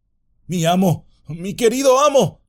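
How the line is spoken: Shouted. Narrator (Spanish): gritó

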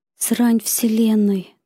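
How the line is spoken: Agitated whisper. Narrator (Russian): только и смог он прошептать от волнения

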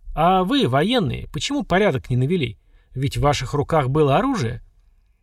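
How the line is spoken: Muffled question. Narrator (Russian): глухо спросил

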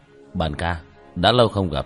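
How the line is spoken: Slightly displeased. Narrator (Vietnamese): Khẽ nhíu mày, Tiểu Thất nói

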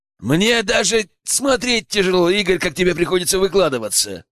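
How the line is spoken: Loud laughter. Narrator (Russian): захохотал Соколов

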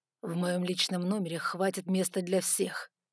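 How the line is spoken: Hissed. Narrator (Russian): прошипел он

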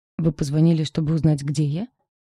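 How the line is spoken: Scoffing. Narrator (Russian): Хмыкнула я

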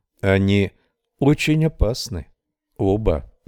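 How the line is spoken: Calm. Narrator (Russian): сказала она спокойно

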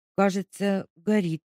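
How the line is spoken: Uncertain. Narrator (Russian): неуверенно сказала Леська

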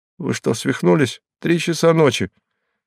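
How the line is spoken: Frightened question after pause. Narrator (Russian): Последовало короткое молчание, затем голос испуганно спросил

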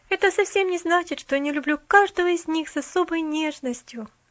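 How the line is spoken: Sigh. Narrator (Russian): Опять вздохнула она

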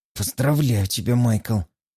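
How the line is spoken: Hissing. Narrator (Russian): прошипел я

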